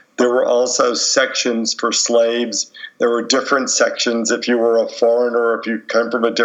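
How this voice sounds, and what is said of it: Usual voice. Nothing is said of it.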